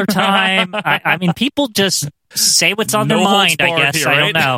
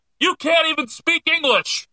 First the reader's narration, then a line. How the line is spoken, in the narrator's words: Some guy yells out